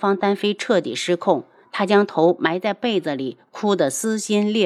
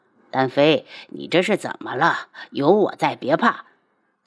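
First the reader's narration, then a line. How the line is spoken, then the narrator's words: Falsely gentle, cold undertone. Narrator (Chinese): 宇文景睿嘴角挂着冷笑，尽可能用最温柔的声音道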